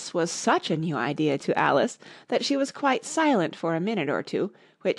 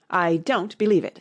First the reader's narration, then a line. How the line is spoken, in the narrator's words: said the pigeon